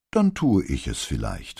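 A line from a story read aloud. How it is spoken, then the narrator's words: Calm. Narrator (German): meinte Brunetti ruhig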